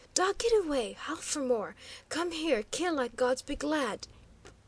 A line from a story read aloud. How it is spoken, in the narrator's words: With an evident effort, Victo rallied, tones far from steady, as she begged